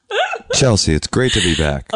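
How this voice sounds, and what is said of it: Radio announcer voice. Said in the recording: “Oh, good radio voice.”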